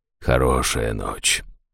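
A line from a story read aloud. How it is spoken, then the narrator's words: Quiet. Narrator (Russian): тихо проговорил жрец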